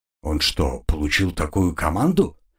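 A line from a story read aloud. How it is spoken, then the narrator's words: Plain. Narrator (Russian): спросил Вейс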